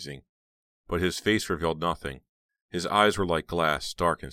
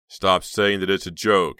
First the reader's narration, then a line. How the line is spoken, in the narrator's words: he snapped